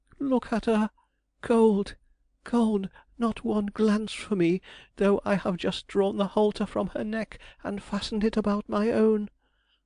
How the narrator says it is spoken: he cried

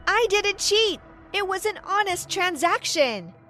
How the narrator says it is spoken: I shouted back

